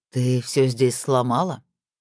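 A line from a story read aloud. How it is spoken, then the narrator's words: Sad, resigned demon lord. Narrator (Russian): очень печально констатировал верховный демон, с легким налетом философского отношения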